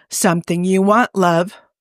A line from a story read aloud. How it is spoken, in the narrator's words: Hob asked hoarsely